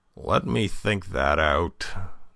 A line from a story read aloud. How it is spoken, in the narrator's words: groaned Polichinelle